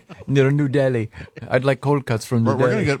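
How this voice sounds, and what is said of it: Put-on foreign accent, hard to understand. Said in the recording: “I can't understand what you're saying with that accent.”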